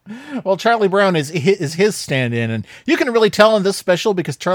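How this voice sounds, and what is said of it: Usual voice. Nothing is said of it.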